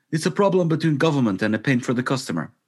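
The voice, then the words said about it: Put-on Russian accent. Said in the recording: “Don't do the accent. ... I went kind of Russian there for some reason.”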